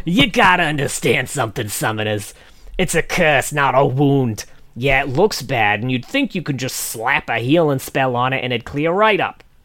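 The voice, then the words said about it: Put-on New York accent. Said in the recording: “really makes him sound like a fucking New Yorker ... do it with a New York accent”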